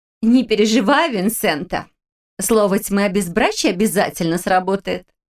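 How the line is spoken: Laughing girl. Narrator (Russian): рассмеялась девушка

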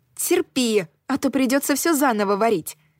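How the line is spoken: Exclaimed. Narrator (Russian): воскликнула я

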